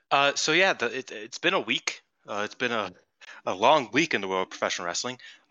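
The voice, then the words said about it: Congested, slightly weird-sounding voice. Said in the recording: “I have a little bit of congestion, so sorry if my voice sounds a little weird.”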